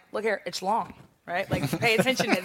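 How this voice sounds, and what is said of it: Impression of President Obama. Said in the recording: “A good impression. Ooh, that was good.”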